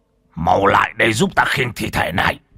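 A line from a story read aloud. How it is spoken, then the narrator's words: Old man shouting. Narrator (Vietnamese): lão Võ quát lên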